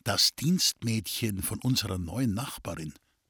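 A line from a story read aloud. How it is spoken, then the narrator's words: Whisper to brother. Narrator (German): Kurt Schrems flüsterte seinem Bruder zu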